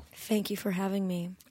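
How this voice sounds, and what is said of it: Mock public radio voice. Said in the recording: “That was my best impression of, like, what I would sound like if I was on public radio”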